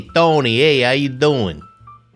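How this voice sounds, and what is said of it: Put-on New York accent. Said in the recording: “I think that was pretty good, right? I don't know if that was a New York accent.”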